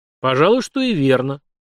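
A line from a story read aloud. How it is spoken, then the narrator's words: Thoughtful king agreeing. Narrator (Russian): задумчиво согласился царь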